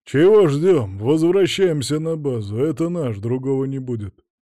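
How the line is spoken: Grumbling. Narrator (Russian): пробурчал культурист

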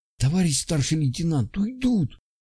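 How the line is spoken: Whisper from behind. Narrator (Russian): раздался сзади шепот Светлова

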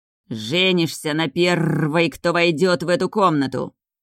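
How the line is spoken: Growling, eerie voice. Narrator (Russian): услышала рычащий жуткий голос

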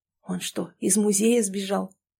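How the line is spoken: Whisper from behind. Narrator (Russian): Сзади кто-то шепнул

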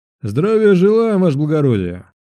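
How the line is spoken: Clipped bass shout. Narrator (Russian): Тем же отрывистым басом крикнул он

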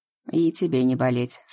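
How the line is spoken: Calm speech. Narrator (Russian): спокойно произнес Иван

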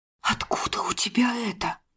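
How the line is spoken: Sharp whisper. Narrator (Russian): Ее шепот был резким, как удар кинжалом

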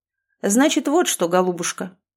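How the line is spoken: Businesslike tone. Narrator (Russian): деловитым тоном начал Сергей Иванович

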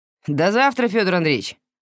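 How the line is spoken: Shout after someone. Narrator (Russian): крикнул ему вслед Сашок

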